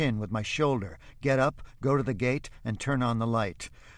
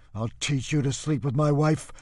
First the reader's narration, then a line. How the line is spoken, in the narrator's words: Vatsek gasps